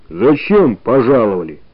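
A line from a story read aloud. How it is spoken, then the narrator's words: Menacing question. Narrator (Russian): грозно спросила она у ребят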